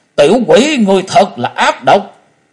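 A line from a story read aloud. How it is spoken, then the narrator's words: Furious loud shout. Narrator (Vietnamese): Bạch Nho đoạt mệnh kiếm trừng mắt muốn nứt ra quát lớn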